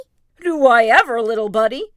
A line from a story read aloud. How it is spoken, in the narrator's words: Tigger exclaimed